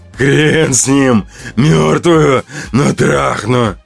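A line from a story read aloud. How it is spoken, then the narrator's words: Growling. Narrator (Russian): рычал Улыбака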